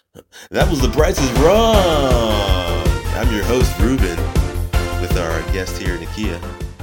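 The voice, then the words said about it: Game show host voice. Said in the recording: “let me get my game show voice over”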